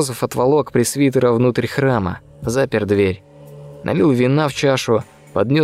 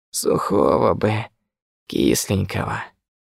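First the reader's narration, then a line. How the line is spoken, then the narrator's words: Breathed, changed voice. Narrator (Russian): выдохнул священник уже совсем другим голосом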